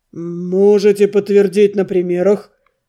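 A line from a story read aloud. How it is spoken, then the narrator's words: Uncertain deep bass. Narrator (Russian): Пробасил неуверенно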